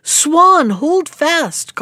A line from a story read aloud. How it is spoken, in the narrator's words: called out Peter